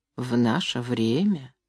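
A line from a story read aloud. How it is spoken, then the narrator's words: Quiet. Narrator (Russian): тихо проговорила миссис Полгрей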